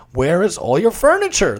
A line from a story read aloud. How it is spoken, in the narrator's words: the businessman asked